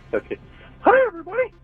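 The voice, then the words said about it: Poor Mickey cartoon voice impression. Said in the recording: “my Mickey impression ... That was horrible”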